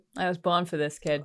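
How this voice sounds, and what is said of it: Strong put-on accent. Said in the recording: “Oh, geez, that accent.”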